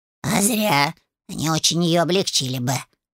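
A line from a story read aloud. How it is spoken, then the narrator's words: Grumbled. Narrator (Russian): проворчал Люцифер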